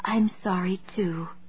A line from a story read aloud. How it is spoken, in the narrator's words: she whispered